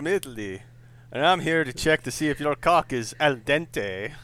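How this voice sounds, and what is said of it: Put-on Italian accent drifting into others. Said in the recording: “I don't know what that fucking accent ... is ... started as Italian and drifted into some sort of polyglot of every random speech pattern I could think of ... kind of drifted into Nigerian from a '90s movie”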